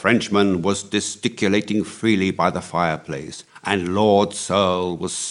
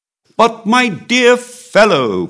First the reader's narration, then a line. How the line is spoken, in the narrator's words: cried the Comte